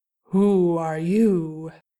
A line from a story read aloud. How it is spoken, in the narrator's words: a rumbling voice asked